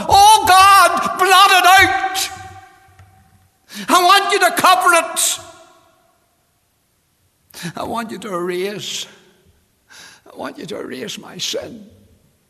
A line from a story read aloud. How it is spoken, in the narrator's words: David, he realized as he thought about his sin, and God had faced him for the sin, and he cried unto God